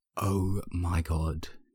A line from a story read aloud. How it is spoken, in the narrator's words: Jisung says in an exaggerated stage whisper